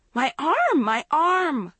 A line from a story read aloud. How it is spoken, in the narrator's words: she cried shrilly